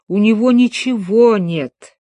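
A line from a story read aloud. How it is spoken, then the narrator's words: Old man's moan. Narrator (Russian): простонал дядюшка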